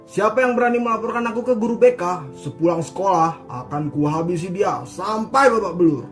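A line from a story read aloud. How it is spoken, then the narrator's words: Loud, booming voice. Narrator (Indonesian): bicara dengan suara yang lantang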